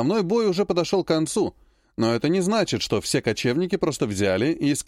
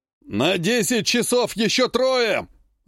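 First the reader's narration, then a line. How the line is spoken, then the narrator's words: Barked command. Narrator (Russian): рявкнул Гюнтер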